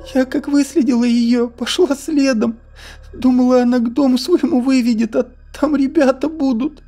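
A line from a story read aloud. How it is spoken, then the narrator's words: Sobbing. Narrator (Russian): всхлипывала Ольга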